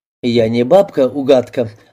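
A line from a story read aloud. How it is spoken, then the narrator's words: Plain. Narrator (Russian): ответил Антон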